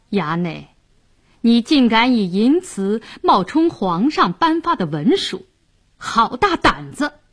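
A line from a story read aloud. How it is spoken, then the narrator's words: Cold sneer. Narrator (Chinese): 白世忠冷笑道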